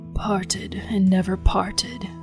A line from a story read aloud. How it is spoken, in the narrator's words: Tevian spoke, his voice low and hoarse